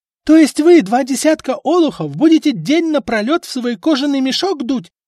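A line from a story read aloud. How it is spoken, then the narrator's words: Yelled. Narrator (Russian): заорала Эльфрида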